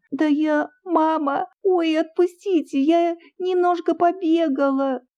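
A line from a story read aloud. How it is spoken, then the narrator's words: Whimpering while struggling. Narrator (Russian): хныкала Оля, силясь освободиться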